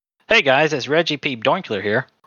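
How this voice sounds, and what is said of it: Comedic character voice. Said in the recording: “You're not doing the character justice. ... do the Reggie voice.”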